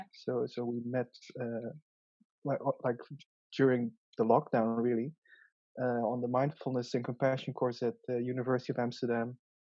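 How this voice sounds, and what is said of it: Thick Dutch accent in English. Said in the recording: “I probably have a very thick Dutch accent. Same with my English.”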